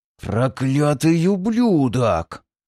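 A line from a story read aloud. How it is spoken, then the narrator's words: Hissed, ruler. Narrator (Russian): прошипел, наконец, правитель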